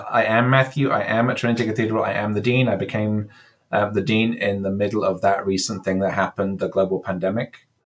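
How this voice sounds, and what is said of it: English accent with slight American vowels. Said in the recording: “I'm English. You can maybe hear from my accent, but I've been 12 years in California at this point. So my vowels are slightly kind of affected by that.”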